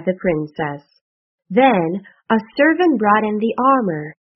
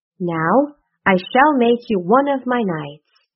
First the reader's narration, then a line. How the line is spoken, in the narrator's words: said the queen